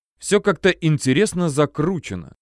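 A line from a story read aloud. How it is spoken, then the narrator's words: Thoughtful. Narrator (Russian): задумчиво проговорил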